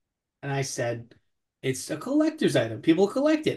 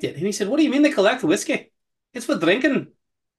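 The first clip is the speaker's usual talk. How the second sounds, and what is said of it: Bad put-on Scottish accent. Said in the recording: “please don't try and do a Scottish accent anymore. It was really bad.”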